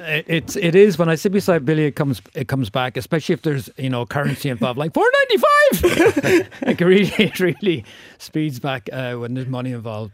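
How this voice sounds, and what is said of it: Strong Wexford Irish accent. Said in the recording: “your Wexford accent, has never been stronger”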